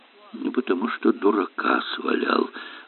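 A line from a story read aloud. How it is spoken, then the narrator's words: Gloomy admission. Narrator (Russian): мрачно признался доктор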